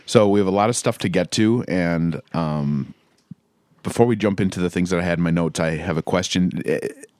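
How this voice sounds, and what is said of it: Hoarse, shredded voice. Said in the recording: “I'm a little hacky today ... hacky voice-wise ... My voice is a little shredded”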